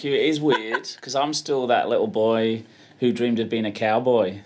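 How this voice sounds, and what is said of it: Accent different from the host's. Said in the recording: “his accent's a little bit different from mine”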